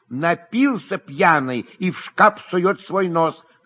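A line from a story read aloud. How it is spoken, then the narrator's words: Angry shout. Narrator (Russian): крикнул Дашенька, сердито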